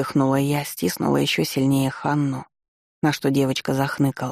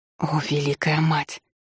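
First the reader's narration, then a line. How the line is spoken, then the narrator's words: Breathy exhaled words. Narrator (Russian): выдохнула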